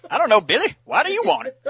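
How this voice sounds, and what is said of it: Put-on hick accent. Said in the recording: “you pulled off that hick accent a little too easily”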